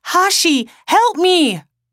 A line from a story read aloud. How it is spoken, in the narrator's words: he screamed out